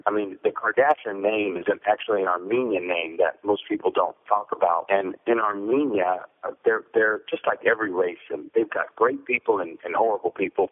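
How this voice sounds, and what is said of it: Slight East Coast American accent. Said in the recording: “You do have a little bit of East Coast in that voice ... I hear it in your voice”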